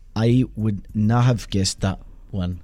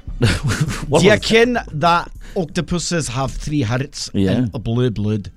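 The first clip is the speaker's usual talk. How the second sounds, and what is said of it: Put-on Scottish accent. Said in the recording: “That accent was Scottish.”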